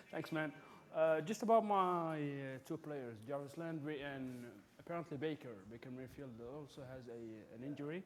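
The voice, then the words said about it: Middle Eastern accent. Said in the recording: “I'm from the Middle East, so I have an accent, basically.”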